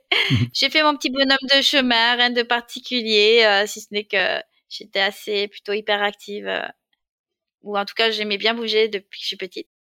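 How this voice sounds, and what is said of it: Slight Marseille accent. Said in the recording (French): “je suis née à Marseille, même si j'ai perdu l'accent un peu aujourd'hui ... j'ai entendu ton accent.”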